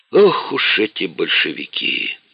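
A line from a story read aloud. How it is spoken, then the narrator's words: Sighing old man. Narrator (Russian): вздохнул бывший коммунист с 30-летним стажем Вейсал Тагиев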